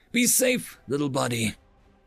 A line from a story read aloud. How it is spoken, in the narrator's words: wheezed the pale, stricken Dave